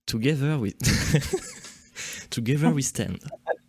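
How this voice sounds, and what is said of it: French speaker attempting English accent. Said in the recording (French): “j'essaie de le faire avec l'accent anglais”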